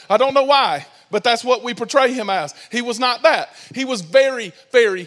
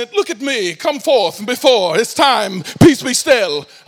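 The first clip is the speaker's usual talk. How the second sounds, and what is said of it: Put-on British accent. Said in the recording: “has a British accent”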